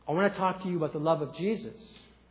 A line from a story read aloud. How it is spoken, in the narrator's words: quietly said